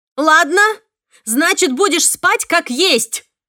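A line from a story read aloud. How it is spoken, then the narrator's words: Shout. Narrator (Russian): крикнула я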